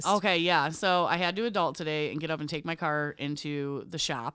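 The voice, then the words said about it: Unusually deep voice. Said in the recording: “I'm really hungover. That's why my voice is so deep today.”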